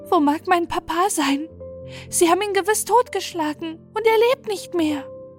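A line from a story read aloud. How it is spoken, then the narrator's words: Wailing. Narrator (German): jammerte Kuno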